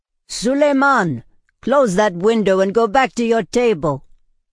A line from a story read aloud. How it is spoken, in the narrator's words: Hristos bellowed, his voice hoarse with worry